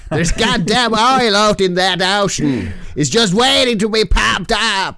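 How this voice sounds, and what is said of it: Broad put-on Texas accent. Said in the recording (Norwegian): “de snakker engelsk ... de, har en veldig sånn brei Texas-aksent, alle sammen”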